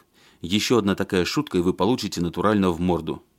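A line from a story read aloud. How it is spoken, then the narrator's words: Angry. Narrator (Russian): зло сказал догнавший его Барышев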